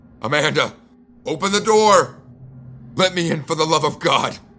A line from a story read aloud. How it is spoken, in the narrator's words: shouted